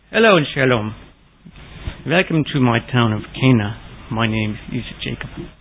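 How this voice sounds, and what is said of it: Cheesy put-on Jewish accent. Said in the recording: “the cheesy Jewish accent”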